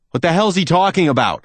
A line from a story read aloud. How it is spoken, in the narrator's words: I shout